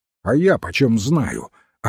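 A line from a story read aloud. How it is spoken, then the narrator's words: Snapped. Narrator (Russian): огрызнулся Флут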